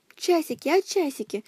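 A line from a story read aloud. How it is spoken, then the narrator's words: Whispering. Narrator (Russian): шептал он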